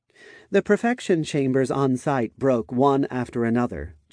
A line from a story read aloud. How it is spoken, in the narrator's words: Chelsea commented in a casual tone